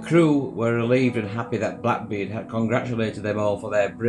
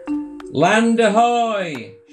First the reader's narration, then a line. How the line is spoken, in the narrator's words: shouted Ralph